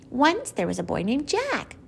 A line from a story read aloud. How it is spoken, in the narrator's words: Barkus whined